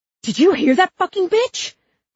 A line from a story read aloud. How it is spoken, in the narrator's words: the cop screamed